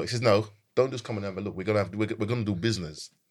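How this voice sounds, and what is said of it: Bad, forceful put-on American accent. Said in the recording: “that's my really bad American accent, right? And it was really quite forceful.”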